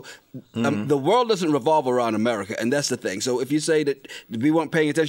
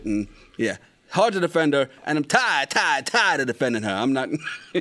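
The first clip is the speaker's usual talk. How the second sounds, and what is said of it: Chris Rock impression. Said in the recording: “That's my Chris Rock impersonation.”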